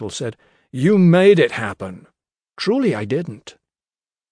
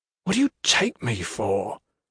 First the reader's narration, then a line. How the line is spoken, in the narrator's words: Gentle said, his tone all quiet contempt